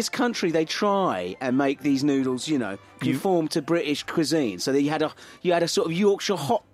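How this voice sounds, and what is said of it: Usual voice. Nothing is said of it.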